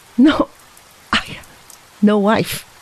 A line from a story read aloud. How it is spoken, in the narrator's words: asserted his companion with a choky little laugh